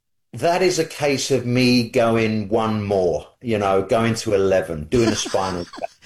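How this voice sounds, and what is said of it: British accent. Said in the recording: “British guitar player ... It always sounds better with the accent”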